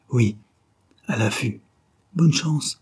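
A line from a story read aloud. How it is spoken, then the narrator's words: Sleepy breathy stammer. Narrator (French): balbutia-t-elle dans un souffle, rendormie déjà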